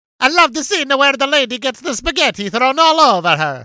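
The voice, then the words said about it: Over-the-top Italian accent impression. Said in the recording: “this is my Dana Carvey impression... That's 1,000% what he sounds like during the entire movie... Whenever I do an Italian impression like that over the top”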